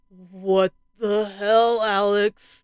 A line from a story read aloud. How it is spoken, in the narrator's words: Tim groaned shakily